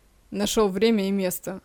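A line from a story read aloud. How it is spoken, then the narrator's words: Muttered. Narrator (Russian): буркнул Сажин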